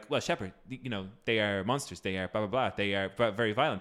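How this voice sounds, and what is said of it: Impression of Mordin from Mass Effect. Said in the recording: “that's a pretty good impression”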